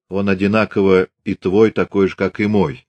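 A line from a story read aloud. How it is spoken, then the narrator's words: Calm reply. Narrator (Russian): спокойно ответил атаман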